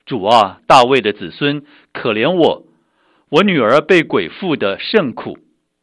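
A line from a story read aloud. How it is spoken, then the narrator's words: Woman crying out. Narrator (Chinese): 有一个迦南妇人喊着说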